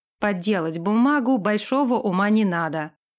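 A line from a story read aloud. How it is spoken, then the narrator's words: King's scoffing grunt. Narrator (Russian): хмыкнул король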